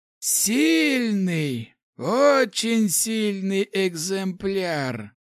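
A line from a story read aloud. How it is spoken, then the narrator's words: Gurgling guttural voice. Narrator (Russian): Пробулькал утробным голосом противник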